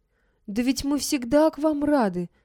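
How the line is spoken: Exclamation. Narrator (Russian): воскликнула я

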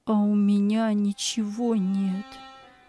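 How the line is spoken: Sad mumble. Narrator (Russian): печально бормотал он

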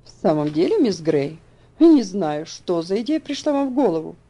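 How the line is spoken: Exclamation. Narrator (Russian): воскликнул мистер Динсмор

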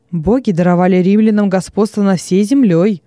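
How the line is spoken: Stern. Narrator (Russian): строго произнес Вениций

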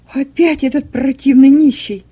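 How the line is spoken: Loud indignant exclamation. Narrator (Russian): громко воскликнула Берта Петровна

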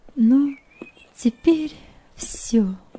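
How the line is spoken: Trembling voice, to nobody. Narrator (Russian): дрогнувшим голосом сказала Нелли, как бы в пространство

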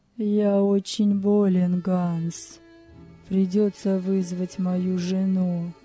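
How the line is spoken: Feigned voice. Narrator (Russian): сказал притворным голосом

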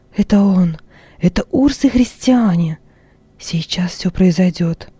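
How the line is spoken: Trembling whisper. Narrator (Russian): шептала она дрожащими губами

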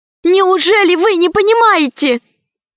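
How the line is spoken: Almost shouting. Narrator (Russian): почти закричала Алиса

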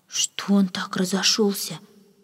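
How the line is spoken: Maid's whispered question. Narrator (Russian): шепотом спросила одна служанка

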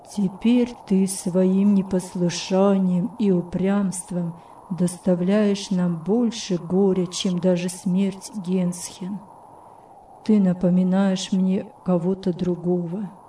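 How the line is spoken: Sad tone. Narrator (Russian): печальным тоном сказал

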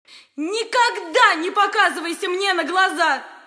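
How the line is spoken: Shouted. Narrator (Russian): крикнула она

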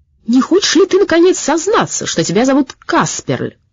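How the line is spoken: Shouting. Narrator (Russian): крикнул он Сеппелю

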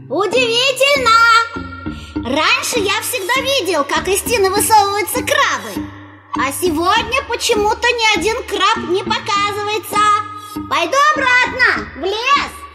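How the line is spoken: Loud calling out. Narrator (Russian): громко выкрикивать

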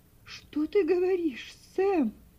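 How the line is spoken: Broken, terrified exclamation. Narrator (Russian): Прерывающимся голосом воскликнула миссис Шерби, чувствуя, как у нее подкашиваются ноги от ужаса

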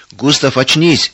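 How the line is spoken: Frightened shouting after someone. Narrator (Russian): испуганно закричали вдогонку товарищи

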